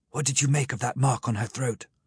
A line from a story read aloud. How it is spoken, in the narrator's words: I asked the professor in a whisper